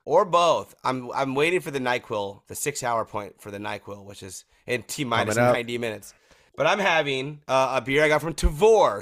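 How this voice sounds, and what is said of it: Voice sounds sick. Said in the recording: “listed as questionable with illness ... you can hear in my voice that I clearly, clearly should not be consuming probably any alcohol right now”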